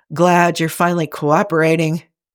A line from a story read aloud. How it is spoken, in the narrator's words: Sighing and having far too much fun with this, Jim moans